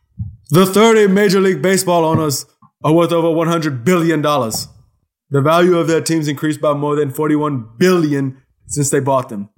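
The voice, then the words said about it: Imitates another person's voice. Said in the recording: “I'm going to try to read it in my best Bernie Sanders voice... Did I land it? ... You landed pretty good.”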